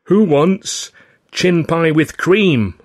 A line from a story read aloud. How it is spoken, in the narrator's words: called out